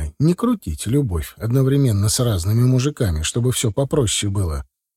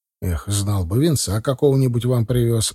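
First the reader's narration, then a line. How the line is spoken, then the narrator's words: Sighing. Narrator (Russian): вздохнул я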